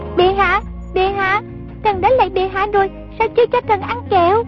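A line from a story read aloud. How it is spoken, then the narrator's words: Child shouting. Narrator (Vietnamese): giọng con nít la lên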